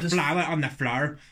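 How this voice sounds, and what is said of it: Put-on Northern Irish accent. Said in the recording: “You try Northern Irish accent.”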